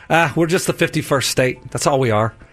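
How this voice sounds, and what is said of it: Put-on Irish accent. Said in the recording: “I did an Irish accent. ... why is he Irish?”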